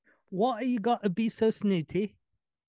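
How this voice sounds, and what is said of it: Unconvincing put-on English accent. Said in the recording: “Don't put on that English accent. It doesn't work for you... If you can't do it proper”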